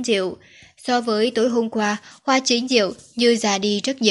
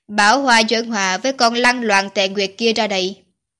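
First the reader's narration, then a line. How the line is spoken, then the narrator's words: Cold. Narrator (Vietnamese): Tiêu Thanh Thanh lạnh lùng nói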